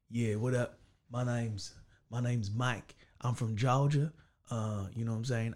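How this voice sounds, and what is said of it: Put-on Southern American accent, twang. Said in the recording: “American accent ... the character I had to do was from Georgia ... So I had to get the twang ... So I had to try and get the South there”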